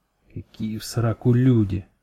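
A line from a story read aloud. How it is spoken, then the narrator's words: Angry whisper. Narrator (Russian): злым шепотом ответил Бурый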